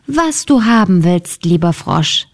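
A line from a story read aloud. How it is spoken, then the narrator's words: Plain. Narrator (German): sagte sie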